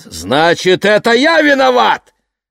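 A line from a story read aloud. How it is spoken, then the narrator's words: Father shouting. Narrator (Russian): крикнул папа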